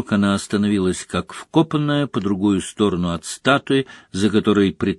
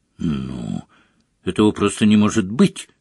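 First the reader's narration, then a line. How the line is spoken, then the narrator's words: Irritated. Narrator (Russian): раздраженно проговорила она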